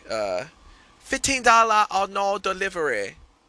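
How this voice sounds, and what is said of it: Weak attempt at a put-on accent. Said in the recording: “I can't do accents, by the way. ... I suck at that. That's not my strength.”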